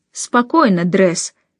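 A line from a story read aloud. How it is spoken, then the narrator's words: Conciliatory tone. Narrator (Russian): примирительным тоном сказал тот, что в мундире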